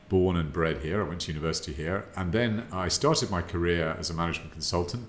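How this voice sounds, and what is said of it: British accent. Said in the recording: “as you can probably tell from my accent, I'm British.”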